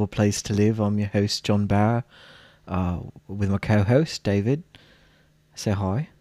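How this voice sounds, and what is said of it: Bad British-to-New Zealand put-on accent. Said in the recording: “Was that supposed to be like New Zealand? ... it was originally british and then it morphed into new zealand and then it was just me being terrible ... it was all over the place ... it was bad”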